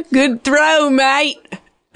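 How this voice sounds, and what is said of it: Put-on Australian accent. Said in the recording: “some pertinent Australian terms ... that's a good accent”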